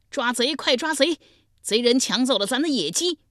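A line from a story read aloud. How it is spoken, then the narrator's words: Loud shout. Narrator (Chinese): 脚步声惊动了重耳，大声喊道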